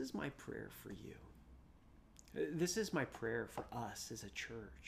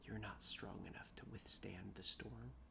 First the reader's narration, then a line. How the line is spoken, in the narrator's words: I whispered back